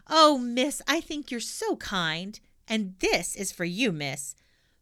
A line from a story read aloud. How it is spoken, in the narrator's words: Pippi said, beaming brightly